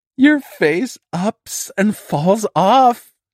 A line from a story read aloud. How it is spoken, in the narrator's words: she laughed again